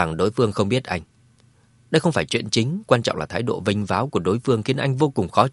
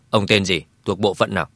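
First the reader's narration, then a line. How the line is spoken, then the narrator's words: Cold. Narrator (Vietnamese): Dương Chấn lạnh lùng nói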